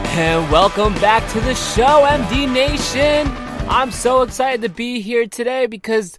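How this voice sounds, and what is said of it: Usual voice. Nothing is said of it.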